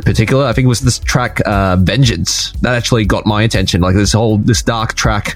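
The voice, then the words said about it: Australian accent, Melbourne. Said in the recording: “I find your accent interesting ... I'm from Melbourne, Australia ... sometimes you pronounce your R's and sometimes you don't. Occasionally you'll do, like, a hard R.”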